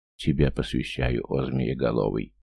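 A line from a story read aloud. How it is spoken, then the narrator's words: Whispered. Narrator (Russian): прошептал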